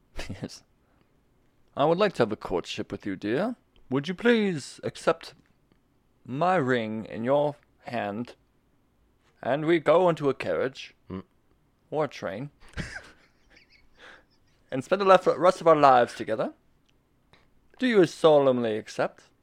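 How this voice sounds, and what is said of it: Formal, official-sounding puppet king voice. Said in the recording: “did the voice of King Friday pretty good, actually. The puppet. ... That's how he wants to sound official.”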